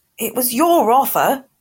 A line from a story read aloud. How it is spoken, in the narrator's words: Harry spluttered